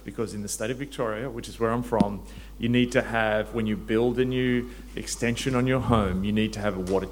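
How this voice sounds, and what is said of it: Australian accent. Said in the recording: “there's an Australian. I have to suppress my gag reflex as I listen to them”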